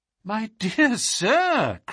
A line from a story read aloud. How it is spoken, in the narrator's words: cried Holmes